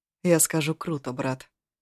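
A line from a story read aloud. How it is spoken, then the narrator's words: Even, steady voice. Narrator (Russian): ровным голосом отозвался Агун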